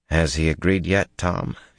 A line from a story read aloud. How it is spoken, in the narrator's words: he asked quietly